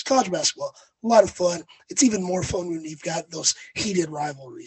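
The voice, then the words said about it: Raspy, hoarse voice. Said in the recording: “I'll try to make it through with my raspy voice”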